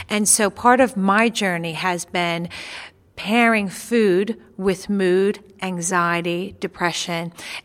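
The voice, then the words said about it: American New York accent. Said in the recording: “you've got an accent... you're from the States, you're from New York”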